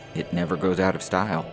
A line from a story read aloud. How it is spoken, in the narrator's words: said nervously